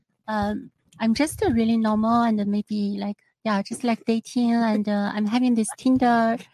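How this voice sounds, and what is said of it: Mixed foreign accent. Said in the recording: “It's an accent for me. ... My accent is very mixed.”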